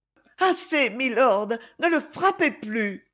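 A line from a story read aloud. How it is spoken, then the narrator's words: Pleading cry. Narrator (French): s'écria-t-elle d'un ton suppliant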